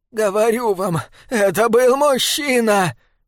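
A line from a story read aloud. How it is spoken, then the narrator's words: Hoarse, trembling shout. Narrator (Russian): хрипло выкрикнула дрожащая Элва Кин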